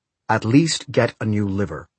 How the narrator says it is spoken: Willem said in his harsh voice

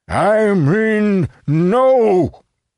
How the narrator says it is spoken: he roared

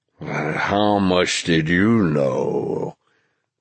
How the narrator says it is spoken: this giant had asked in a low, rumbling voice

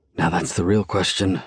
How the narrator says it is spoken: I murmur angrily

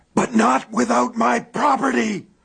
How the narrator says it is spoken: He screamed

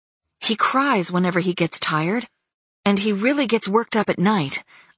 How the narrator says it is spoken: I blurted out before Christopher had a chance to speak

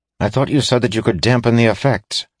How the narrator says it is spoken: said Aaron anxiously

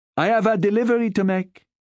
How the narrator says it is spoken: she called out

